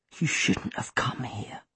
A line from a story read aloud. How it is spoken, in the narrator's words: Seffi whispered